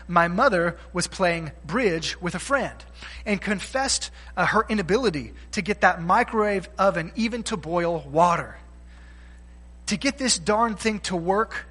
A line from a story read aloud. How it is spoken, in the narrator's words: she exclaimed